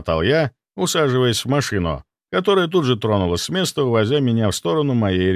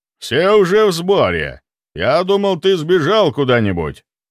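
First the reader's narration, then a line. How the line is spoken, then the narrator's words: Said loudly. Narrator (Russian): громко произнес Леонов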